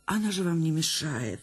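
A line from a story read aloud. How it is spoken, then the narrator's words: Trembling defensive voice. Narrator (Russian): дрожащим голосом вступилась актриса за свою собачищу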